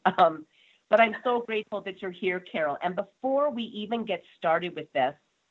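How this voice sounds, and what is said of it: Nasal, congested voice. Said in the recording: “I have a cold and I am very nasally. So some of my words don't sound like they're coming out correctly.”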